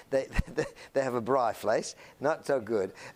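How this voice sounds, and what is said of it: Exaggerated South African English accent. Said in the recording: “if they're English, they speak with this kind of accent that I'm emphasizing a little bit here”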